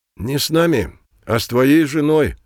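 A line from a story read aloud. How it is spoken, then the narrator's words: Sighing. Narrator (Russian): вздохнул кашквизитор Фредерик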